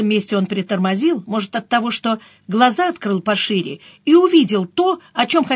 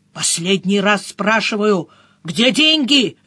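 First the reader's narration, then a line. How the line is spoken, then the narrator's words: Harsh bark. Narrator (Russian): рявкнул он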